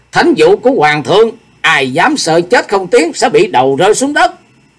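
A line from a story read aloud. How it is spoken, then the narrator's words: Stern loud call. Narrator (Vietnamese): nghiêm nghị kêu to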